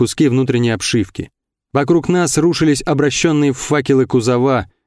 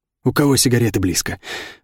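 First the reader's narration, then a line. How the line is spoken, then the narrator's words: Hoarse rasp. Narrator (Russian): прохрипел Жора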